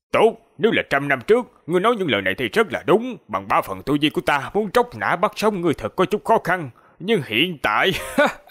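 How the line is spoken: Calm, indifferent. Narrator (Vietnamese): Lão giả không tức giận, ngược lại nhàn nhạt nói

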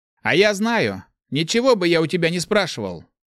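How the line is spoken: Snapping retort. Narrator (Russian): огрызнулся Фаргус

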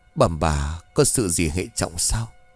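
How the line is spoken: Trembling question. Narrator (Vietnamese): Dậu run rẩy hỏi

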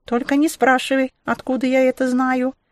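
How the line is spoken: Squeaked. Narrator (Russian): пропищала она

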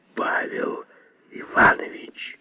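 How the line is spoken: Whispered. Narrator (Russian): Лазовский прошептал

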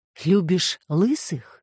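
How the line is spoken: Quiet ironic question. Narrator (Russian): тихий ироничный вопрос

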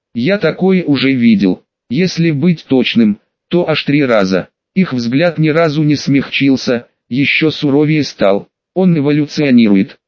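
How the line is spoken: Plain. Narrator (Russian): сказал я

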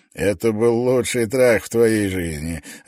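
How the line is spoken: Laughing. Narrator (Russian): рассмеялся Клин

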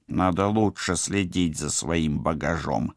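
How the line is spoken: Grumbled through translator. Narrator (Russian): проворчал он в транслятор

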